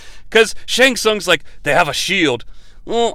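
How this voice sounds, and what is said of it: Usual voice. Nothing is said of it.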